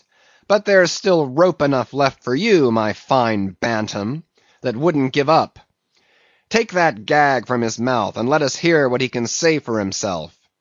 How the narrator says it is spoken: cried at last

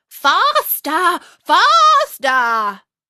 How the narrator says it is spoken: still the queen cried

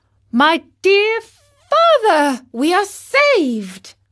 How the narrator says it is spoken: cried the marionette

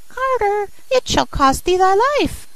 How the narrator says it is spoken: The sparrow cried

